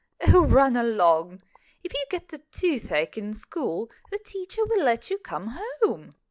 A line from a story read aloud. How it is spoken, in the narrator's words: But his mother would laugh and say